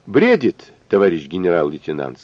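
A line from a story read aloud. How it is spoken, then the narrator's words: Plain. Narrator (Russian): сказал тот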